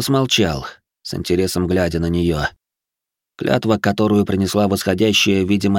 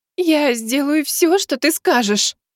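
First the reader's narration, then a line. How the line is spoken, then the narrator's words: Sobbing in horror. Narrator (Russian): всхлипнула Келл-леди, с ужасом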